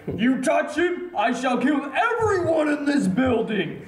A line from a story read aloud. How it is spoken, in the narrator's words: scream